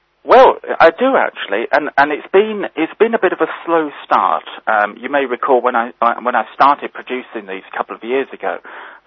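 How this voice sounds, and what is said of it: British accent. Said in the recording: “your very lovely British accent”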